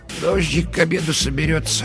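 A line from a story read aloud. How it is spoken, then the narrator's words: Muttered. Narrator (Russian): она пробормотала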